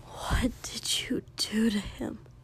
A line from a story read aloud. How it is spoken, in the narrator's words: He whispered it, said it